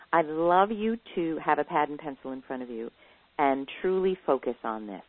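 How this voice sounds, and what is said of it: Slightly hoarse, throaty voice. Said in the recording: “I have a little bit of a frog in my throat”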